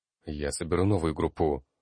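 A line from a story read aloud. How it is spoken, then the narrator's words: Hurried. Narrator (Russian): торопливо произнес он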